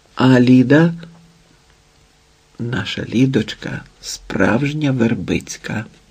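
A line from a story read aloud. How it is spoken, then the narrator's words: Whispered. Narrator (Ukrainian): прошепотіла Івета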